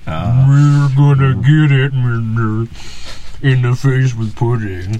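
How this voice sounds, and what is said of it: Imitates another person's voice. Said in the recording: “that a Bill Cosby impression?”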